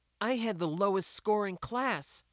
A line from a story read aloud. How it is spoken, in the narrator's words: she blurted out